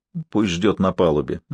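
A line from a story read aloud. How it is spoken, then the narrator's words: Displeased muttering. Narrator (Russian): недовольно пробурчал Норман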